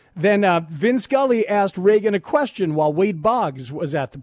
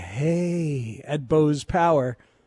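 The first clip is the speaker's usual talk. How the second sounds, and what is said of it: Ronald Reagan impression. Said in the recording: “That was my Reagan impression”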